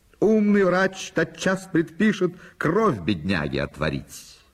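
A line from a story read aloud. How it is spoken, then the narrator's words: Cheerful shout. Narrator (Russian): Бакалавр Мольер весело кричал в ответ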